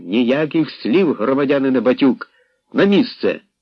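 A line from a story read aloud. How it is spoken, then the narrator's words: Full-force shout. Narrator (Ukrainian): Грабенко щосили крикнув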